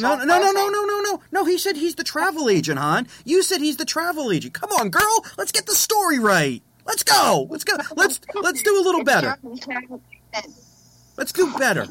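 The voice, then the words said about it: Raised, yelling voice. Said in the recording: “It seems you're yelling at me.”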